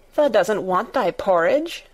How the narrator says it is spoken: Martha exclaimed incredulously

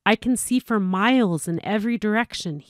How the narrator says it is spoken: said excitedly

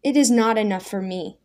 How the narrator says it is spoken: Daniel cried

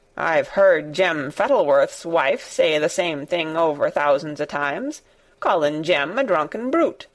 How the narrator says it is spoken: said Ben Weatherstaff dryly

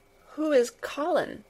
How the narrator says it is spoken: faltered

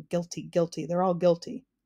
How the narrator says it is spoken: Officer Shrift suspiciously muttering

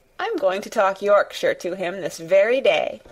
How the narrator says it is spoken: said Mary, chuckling herself

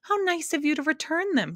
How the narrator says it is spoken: she cried happily

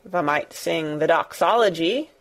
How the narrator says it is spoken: he suggested in his driest grunt

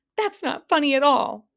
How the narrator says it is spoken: sobbed the Din

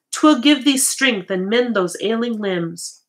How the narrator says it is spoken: she begged

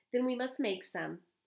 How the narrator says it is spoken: Amos replied

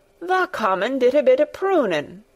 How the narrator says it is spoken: cried Dickon

